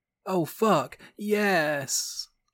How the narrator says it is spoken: suddenly moaned out loud

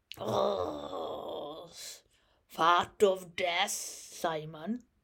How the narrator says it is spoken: Ben Dollard growled

